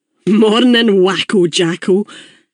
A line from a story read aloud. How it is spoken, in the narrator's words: Billy called out to me